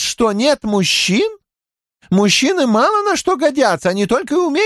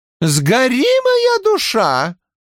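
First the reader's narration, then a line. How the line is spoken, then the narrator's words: Woman exclaiming. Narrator (Russian): воскликнула женщина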